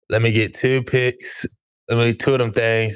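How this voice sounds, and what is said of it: Impression of Deontay Banks' accent. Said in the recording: “Deontay Banks impression ... That's probably the best I could do ... He kind of has that accent. It's kind of hard to emulate.”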